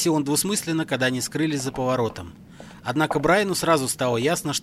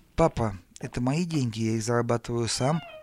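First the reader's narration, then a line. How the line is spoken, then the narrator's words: Uncertain. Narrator (Russian): сказал он неуверенно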